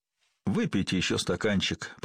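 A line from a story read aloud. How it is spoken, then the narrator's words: Mumbled. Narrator (Russian): пробормотал он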